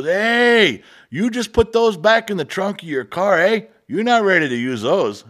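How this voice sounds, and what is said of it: Put-on thick Mexican accent. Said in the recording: “He had a thick Mexican accent.”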